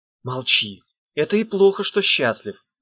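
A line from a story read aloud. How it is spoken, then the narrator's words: Exclaiming. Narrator (Russian): воскликнула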